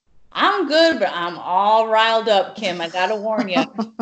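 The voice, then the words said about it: Southern American accent. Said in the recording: “You're using the Southern accent.”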